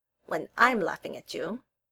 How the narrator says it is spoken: Tally grumbled

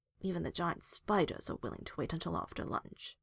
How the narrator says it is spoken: Hawk grumbled

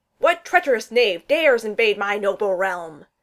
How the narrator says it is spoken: Thor bellowed

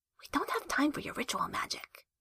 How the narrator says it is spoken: Jester whispered

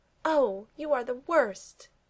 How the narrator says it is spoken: Peggy cries

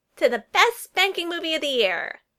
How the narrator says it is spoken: Lydia squealed

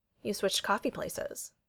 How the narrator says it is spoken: Bucky says, his tone dry and uninterested

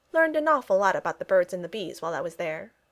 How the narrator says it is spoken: he said

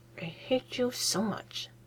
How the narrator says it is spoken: Herman mutters out of the edge of his mouth

